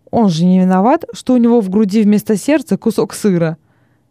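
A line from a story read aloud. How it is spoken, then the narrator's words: Exclaiming. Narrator (Russian): воскликнул Синицион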